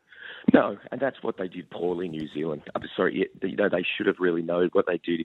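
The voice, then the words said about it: Hoarse, worn-out voice. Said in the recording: “you're sounding a bit dusty this morning, mate ... you can hear that in my voice, can't you? ... my voice is actually given out a little bit”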